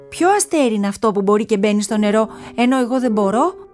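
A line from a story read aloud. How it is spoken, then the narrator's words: Angry shout. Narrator (Greek): φώναξε με θυμό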